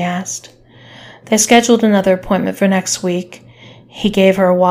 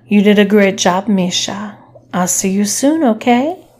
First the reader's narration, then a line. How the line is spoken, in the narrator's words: said sweetly